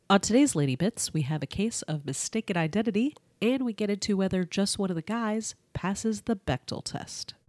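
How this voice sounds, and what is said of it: Congested, husky voice. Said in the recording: “I have a cold. So if my voice sounds sexier than usual, don't be alarmed. It's just mucus.”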